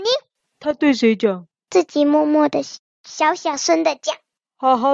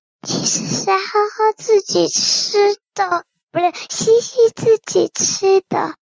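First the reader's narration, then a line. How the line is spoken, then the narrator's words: Quieter whisper. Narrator (Chinese): 更小声的补了一句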